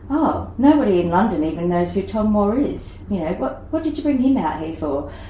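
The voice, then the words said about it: Poor imitation of English accent. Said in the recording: “Obviously, they were English, and that was the worst English accent I've ever done. So I can do better.”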